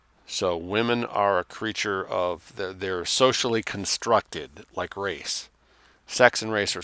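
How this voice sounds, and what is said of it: Usual voice. Nothing is said of it.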